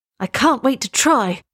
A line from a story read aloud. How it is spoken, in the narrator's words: cried the prince